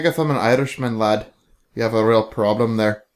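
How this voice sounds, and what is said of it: Bad put-on Irish-Scottish accent. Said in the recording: “do that shitty Irish / slightly Scottish accent”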